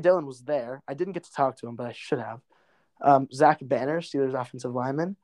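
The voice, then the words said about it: Hoarse, worn-out voice. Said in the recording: “my voice is totally gone. I'm super sleep deprived.”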